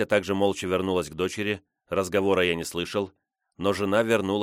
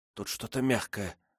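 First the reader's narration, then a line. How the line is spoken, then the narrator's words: Whisper. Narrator (Russian): прошептала Катя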